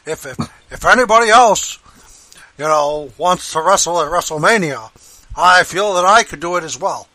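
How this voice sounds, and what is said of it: Bernie Sanders impression. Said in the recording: “my Bernie Sanders impression”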